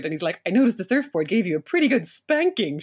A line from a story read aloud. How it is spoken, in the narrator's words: Sean chuckled